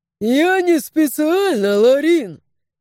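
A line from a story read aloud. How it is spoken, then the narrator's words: Guffawing. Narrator (Russian): захохотал Когорок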